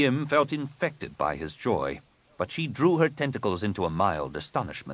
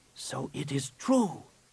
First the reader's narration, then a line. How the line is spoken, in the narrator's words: he whispered